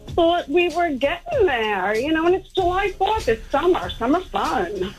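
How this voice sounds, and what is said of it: New York accent. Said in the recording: “you got like a New York accent.”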